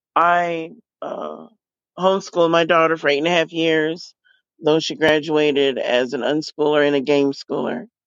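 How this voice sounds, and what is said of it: Noticeably affected, unwell voice. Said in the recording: “Sorry about my voice.”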